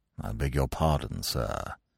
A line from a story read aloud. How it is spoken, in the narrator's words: he said in a sort of hushed voice